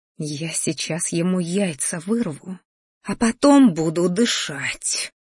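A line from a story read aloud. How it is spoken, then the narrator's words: Angry hiss. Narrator (Russian): злобно прошипела матушка в ответ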